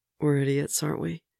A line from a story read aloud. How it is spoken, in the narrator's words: Steve murmurs